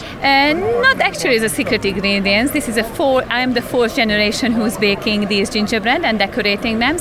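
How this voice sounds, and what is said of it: Hungarian accent. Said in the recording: “your accent is a little bit of a giveaway, because that's not a Derbyshire accent ... I'm originally came from Hungary.”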